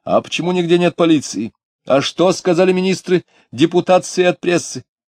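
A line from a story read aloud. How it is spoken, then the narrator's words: Shouted after someone. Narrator (Russian): кто-то чернобородый в тяжелой шубе крикнул вслед ему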